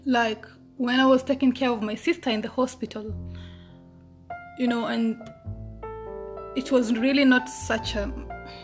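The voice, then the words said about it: Voice cracking with emotion. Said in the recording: “my voice is cracking”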